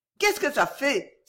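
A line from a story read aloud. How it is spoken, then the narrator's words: Joyful excited cry. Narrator (French): s'écria Suzanne avec un joyeux emportement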